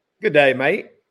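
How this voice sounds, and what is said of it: Good put-on Australian accent. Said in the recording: “give me your best Aussie accent ... Jeez, that's pretty good ... Jeez, that's pretty bloody good”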